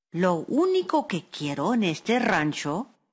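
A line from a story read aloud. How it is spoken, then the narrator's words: Plain. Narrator (Spanish): le dijo Araceli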